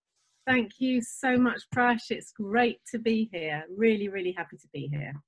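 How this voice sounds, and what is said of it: English accent. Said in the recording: “that's an English accent if I ever heard one”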